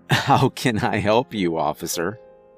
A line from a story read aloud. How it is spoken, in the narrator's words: I said, choking back my laughter